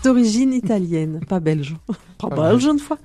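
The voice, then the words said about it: Put-on Belgian accent. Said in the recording (French): “Merci pour cet accent.”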